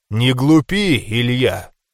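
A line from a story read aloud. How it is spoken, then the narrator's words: Stern. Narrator (Russian): строго произнес Кэррилор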